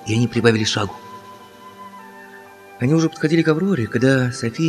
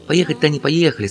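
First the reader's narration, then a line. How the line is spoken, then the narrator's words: Plain. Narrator (Russian): сказала София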